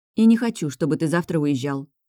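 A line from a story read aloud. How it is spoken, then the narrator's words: Displeased mutter. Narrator (Russian): недовольно пробурчала я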